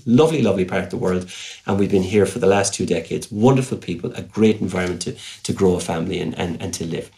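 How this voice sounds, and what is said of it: Irish Cork accent. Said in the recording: “I'm a Corkman. I hope you hear that accent”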